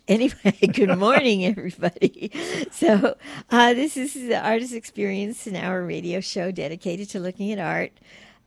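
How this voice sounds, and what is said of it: Groggy, barely working morning voice. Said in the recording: “Your morning voice. ... In my morning voice, which is barely operating right now”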